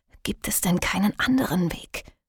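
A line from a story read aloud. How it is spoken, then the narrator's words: Hoarse whisper. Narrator (German): flüsterte sie mit plötzlich rauer Kehle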